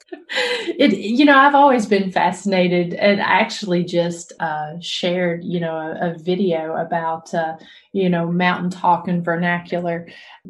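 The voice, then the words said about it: Southern Tennessee accent. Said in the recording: “I think you're from Tennessee, right? ... I recognize the accent ... Southern accent”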